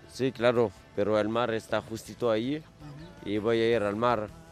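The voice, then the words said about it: Argentine-accented Spanish. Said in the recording (Catalan): “tenia accent argentí”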